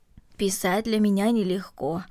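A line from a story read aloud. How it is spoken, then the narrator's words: Plain. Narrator (Russian): ответила Марта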